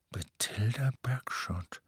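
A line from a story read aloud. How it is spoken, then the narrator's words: Murmuring. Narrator (German): murmelte Hermine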